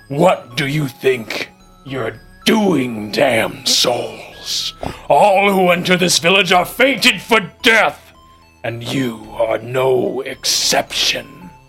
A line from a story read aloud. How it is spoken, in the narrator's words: The lion head growls, and in English it says